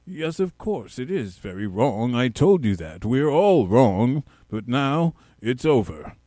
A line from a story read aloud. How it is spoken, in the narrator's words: said rather crossly